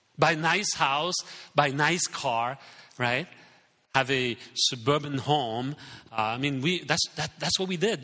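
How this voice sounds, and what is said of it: French accent. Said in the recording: “the French culture ... Some of you don't really understand my English because I have an accent”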